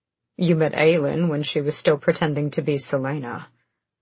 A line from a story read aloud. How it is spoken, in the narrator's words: Rowan said dryly